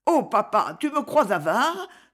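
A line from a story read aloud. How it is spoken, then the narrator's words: Embarrassed blushing exclamation. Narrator (French): s'écria-t-elle en rougissant jusqu'aux cheveux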